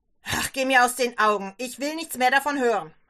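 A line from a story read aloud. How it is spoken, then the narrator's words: Father shouting. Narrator (German): schreit der Vater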